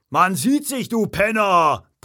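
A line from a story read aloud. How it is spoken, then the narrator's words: Big man bellowing after. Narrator (German): brüllte der Riesenbrustkasten ihm hinterher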